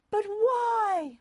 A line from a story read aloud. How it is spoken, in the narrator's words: Mother cried